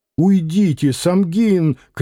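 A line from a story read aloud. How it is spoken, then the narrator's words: Woman's shout. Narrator (Russian): крикнула Варвара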